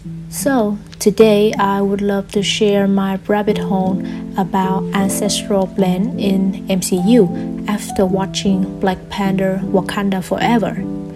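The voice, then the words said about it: Non-native English accent. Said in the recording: “I will be talking in English. I'm still practicing, so please forgive my accent and any mispronunciation.”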